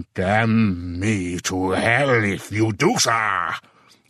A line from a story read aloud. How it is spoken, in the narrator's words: he roared loudly enough to make heads turn half a block away